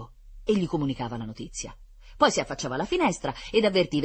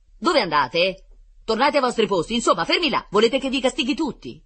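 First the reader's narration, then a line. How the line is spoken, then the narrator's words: Teachers shouting. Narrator (Italian): I maestri gridavano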